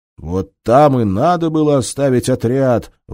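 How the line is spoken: Shouted in unison. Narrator (Russian): в один голос крикнули Агафонов и Фокин

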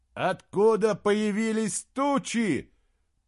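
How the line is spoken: Shouting. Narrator (Russian): прокричал из Гримнуру Эйнскалдир

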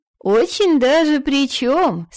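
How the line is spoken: Laughing, insistent. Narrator (Russian): смеясь, не сдавалась фру Альфгейра

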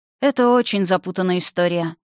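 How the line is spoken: Sighed. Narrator (Russian): вздохнула Евгения

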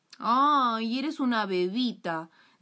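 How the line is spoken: Plain. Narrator (Spanish): dijo el hermano

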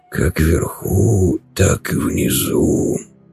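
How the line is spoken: Rasping. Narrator (Russian): прохрипел он

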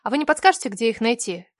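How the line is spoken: Sweet, charming question. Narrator (Russian): Как можно более милым тоном спросила я

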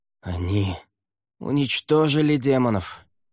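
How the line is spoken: Hoarse rasp. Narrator (Russian): прохрипел Лаверн

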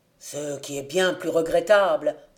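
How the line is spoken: Exclaimed. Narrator (French): s'écria un quatrième

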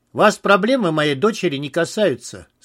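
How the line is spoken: Dry, curt. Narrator (Russian): сказал Виктор сухо

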